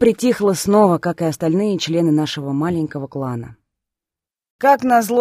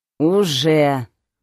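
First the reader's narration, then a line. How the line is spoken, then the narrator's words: Undertone grumble. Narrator (Russian): проворчала в полголоса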